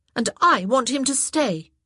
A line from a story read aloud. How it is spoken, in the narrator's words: Daphne said hotly